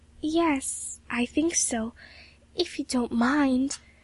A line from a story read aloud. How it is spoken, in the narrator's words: faltered Emily